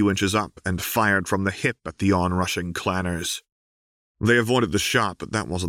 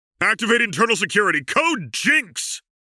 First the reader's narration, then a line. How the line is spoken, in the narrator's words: Jace shouted